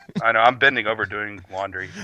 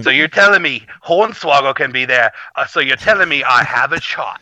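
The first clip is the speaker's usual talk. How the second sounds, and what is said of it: Badly done put-on accent. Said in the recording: “That's a really bad accent”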